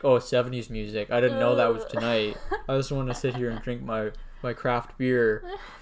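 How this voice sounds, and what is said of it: Imitates bored young people. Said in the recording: “That's my impression of people my own age.”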